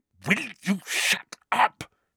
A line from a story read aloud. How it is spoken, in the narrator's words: Harry hissed